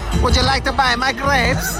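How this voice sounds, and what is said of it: Put-on Central Asian accent. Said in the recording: “very Kazakhstani accent”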